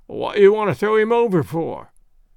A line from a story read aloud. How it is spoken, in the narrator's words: questioned the sailor, in a querulous voice